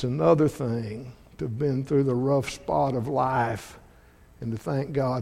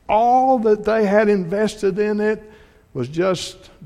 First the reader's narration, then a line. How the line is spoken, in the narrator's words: they cried out